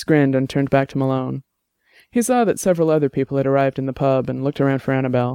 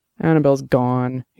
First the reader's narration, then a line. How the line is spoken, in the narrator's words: he said miserably